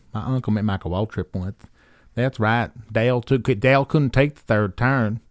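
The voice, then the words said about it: Put-on Central North Carolina hick accent. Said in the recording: “my second favorite one is the Central North Carolina hick accent.”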